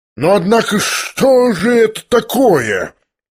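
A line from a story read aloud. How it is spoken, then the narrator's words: Sudden angry menacing exclamation. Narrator (Russian): Грозно и внезапно воскликнул рассердившийся Ордолеон Александрович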